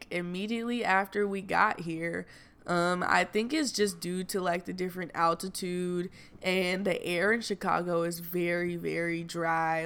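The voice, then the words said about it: Slightly raspy voice. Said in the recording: “you can kind of hear it in my voice. It's a little raspy,”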